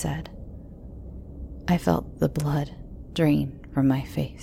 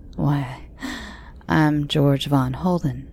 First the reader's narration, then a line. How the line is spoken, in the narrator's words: he said with a short laugh